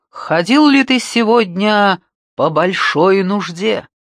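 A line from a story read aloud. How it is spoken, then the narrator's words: Booming, mock-serious question. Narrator (Russian): Придав своему лицу выражение предельной серьезности, Хинара раскатистым голосом спросил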